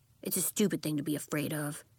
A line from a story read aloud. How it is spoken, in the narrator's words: Bax muttered